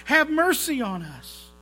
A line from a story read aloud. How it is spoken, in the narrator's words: those blind beggars cried out